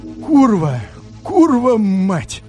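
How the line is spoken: Strained, hollow, near breaking. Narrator (Russian): чуть было не теряя самообладания, опустошенным голосом выдавил

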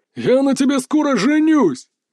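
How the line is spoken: Shout with stupid guffaw. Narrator (Russian): крикнул толстяк и заржал дебильно

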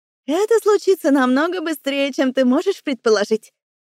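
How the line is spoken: Giggling. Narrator (Russian): хихикнула Ада

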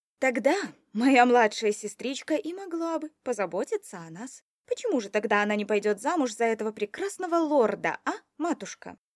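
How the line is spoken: Sarcastic teasing. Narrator (Russian): Язвительно поддевала я

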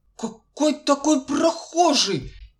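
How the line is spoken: Angry shout masking fear. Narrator (Russian): сердито кричит сторож, желая замаскировать криком свой страх

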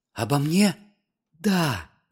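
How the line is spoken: Whisper. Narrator (Russian): зашептала Устинька

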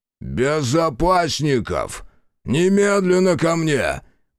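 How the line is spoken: Roaring. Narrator (Russian): Проревел магнат

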